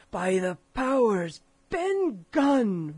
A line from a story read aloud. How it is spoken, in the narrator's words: roared Silver